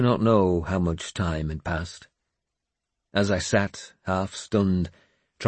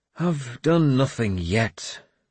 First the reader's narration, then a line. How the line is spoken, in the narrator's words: I said bitterly, and moaned as pain stabbed through my skull